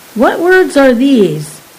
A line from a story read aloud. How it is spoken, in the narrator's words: Balk exclaimed